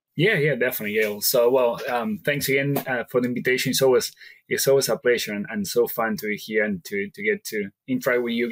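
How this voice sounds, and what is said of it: Strong Argentine Spanish accent. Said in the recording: “I am originally from Argentina, so that is where the strong accent came from”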